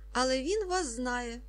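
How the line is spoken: Man laughing. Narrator (Ukrainian): засміявся чоловік

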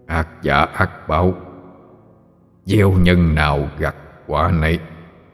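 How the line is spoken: Old man's eerie ghostly voice. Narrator (Vietnamese): Ông lão đáp bằng giọng âm u ma quái quen thuộc

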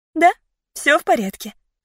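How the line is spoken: Calm voice. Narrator (Russian): ответила я спокойным голосом

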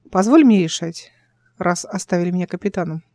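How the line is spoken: Plain. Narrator (Russian): сказала

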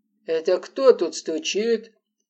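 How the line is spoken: Deep bass question. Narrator (Russian): густым басом спросил дядька

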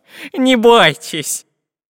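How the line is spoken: Cheerful laughing. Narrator (Russian): Весело засмеялся профессор Пыхтелкин

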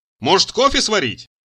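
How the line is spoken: Shout. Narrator (Russian): Крикнул

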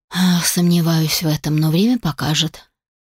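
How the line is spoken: Gloomy reply. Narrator (Russian): мрачно ответил Алишер

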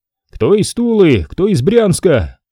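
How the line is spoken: Group shouting. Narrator (Russian): Кричали

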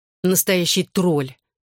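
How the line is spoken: Muttering under breath. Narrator (Russian): Лиззи что-то еще пробурчала себе под нос, добавив

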